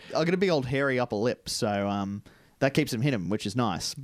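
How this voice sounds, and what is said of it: Slight lisp. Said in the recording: “my voice sounds slightly different to maybe last podcast ... it's just a little bit maybe lippy ... A little more lispy, because I, at the ripe old age of 30, have decided to get braces”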